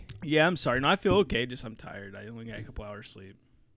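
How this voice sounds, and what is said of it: Scratchy, tired-sounding voice. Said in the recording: “Your voice sounds a little scratchy.”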